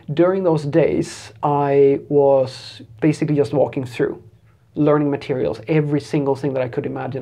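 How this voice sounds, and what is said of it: Slightly distorted, sick-sounding voice. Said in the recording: “my voice is a little bit distorted because I've been sick for a few days now”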